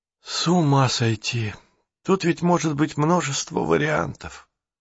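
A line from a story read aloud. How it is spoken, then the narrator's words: Dejected. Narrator (Russian): уныло произнес Джейсон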